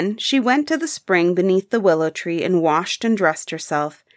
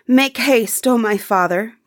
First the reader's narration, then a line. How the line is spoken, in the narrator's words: cried he